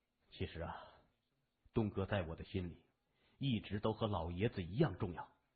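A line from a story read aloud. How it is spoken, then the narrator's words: Sighing. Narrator (Chinese): 他暗叹一声说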